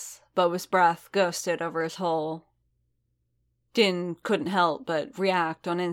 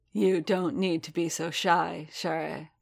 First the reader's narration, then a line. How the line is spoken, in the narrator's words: Boba said, his voice deep and dark, as warm as an embrace